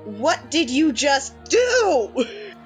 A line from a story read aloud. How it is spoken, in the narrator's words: your shout is